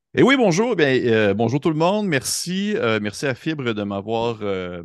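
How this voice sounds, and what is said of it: Slight foreign accent. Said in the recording (French): “il y a un petit accent”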